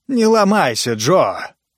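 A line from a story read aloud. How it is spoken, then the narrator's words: Irritated, raised voice. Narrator (Russian): раздраженно повысил голос Титу Апостас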